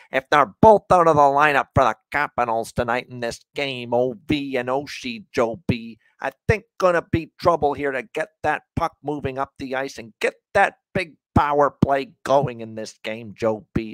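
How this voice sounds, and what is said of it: Imitates a TV hockey analyst. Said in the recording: “that Craig Laughlin impression. ... The longtime, of course, television analyst of the Washington Capitals.”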